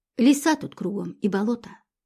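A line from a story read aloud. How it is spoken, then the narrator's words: Gloomy. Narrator (Russian): мрачно проговорила Инка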